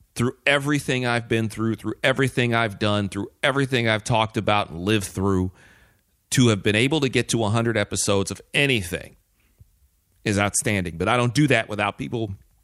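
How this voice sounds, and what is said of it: Choked-up, emotional voice. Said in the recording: “Got a little choked up there.”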